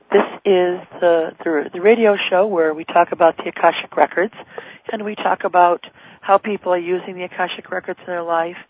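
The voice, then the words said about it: Hoarse, raspy voice. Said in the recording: “my voice is a little bit hoarse and raspy tonight ... I'm just getting over a cold.”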